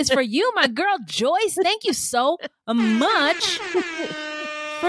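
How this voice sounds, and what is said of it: Usual voice. Nothing is said of it.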